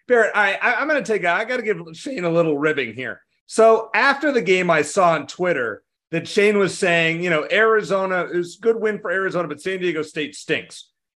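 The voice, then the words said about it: Slightly hoarse voice. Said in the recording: “That was my voice during the game, Shane, is the reason I'm still a little hoarse today.”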